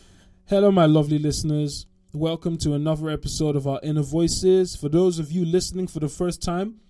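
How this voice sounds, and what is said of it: Usual voice. Nothing is said of it.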